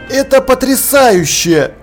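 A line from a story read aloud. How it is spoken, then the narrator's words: Exclaiming. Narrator (Russian): воскликнул Деслов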